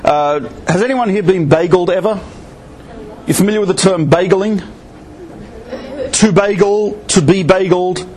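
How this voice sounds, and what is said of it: Australian accent. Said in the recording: “I'm Australian, in case you didn't guess from the accent.”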